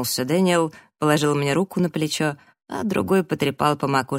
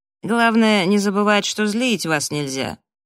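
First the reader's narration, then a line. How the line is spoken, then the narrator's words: Slightly nasal. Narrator (Russian): он слегка гнусавил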